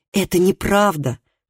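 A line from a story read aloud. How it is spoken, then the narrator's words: Exclamation. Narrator (Russian): воскликнул Калеб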